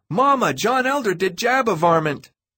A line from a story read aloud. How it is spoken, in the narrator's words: He ran down the hall yelling